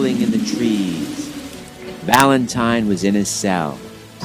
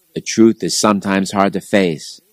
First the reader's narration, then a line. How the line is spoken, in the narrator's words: the Christian bishop sighed